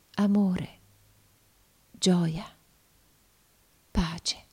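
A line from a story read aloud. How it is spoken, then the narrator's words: Blissful murmur. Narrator (Italian): Uno sfavillante e beato sorriso rischiarò il suo volto ed essa mormorò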